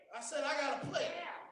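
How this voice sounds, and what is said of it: Shouting, loud preaching voice. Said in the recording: “that's why I'm shouting”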